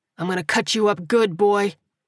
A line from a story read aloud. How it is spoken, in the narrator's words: he snarled with a sneer